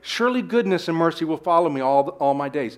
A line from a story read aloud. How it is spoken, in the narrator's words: he moves quickly to say